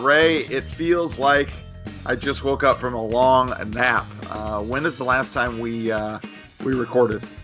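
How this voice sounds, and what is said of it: Cracking, slightly strained voice. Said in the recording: “My voice is cracking a little bit.”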